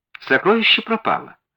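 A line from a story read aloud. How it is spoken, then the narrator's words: Calm remark. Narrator (Russian): спокойно заметила мисс Морстон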